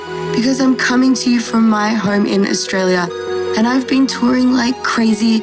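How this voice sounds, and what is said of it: Hoarse, nearly lost voice. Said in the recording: “my voice is completely gone”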